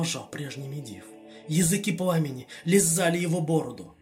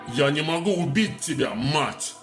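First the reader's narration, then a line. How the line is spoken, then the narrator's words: Bark. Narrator (Russian): рявкнул демон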